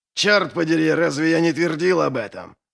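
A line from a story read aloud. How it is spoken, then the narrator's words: Barked. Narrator (Russian): Гаркнул Доу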